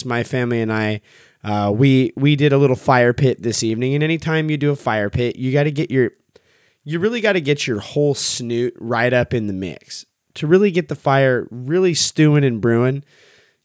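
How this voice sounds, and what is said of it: Slightly raspy voice. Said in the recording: “You can probably hear it in my voice ... it just smokes you out ... makes the whole situation a little raspier”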